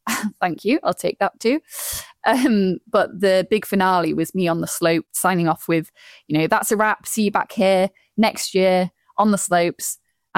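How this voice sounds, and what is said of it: Yorkshire accent. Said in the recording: “my sort of thickest Yorkshire accent ... I love your accent. I think it's great.”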